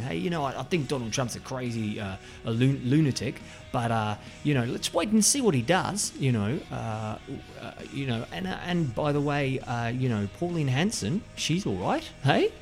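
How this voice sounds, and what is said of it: Impression of an Australian man. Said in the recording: “that was my impression of that guy. Not all Australians”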